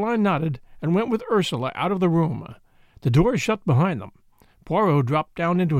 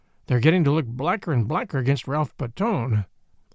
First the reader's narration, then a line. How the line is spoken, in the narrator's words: I observed gloomily